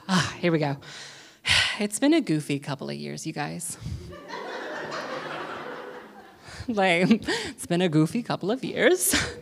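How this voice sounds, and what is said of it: Out of breath, breathless speech. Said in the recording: “I'm out of breath from that dancing”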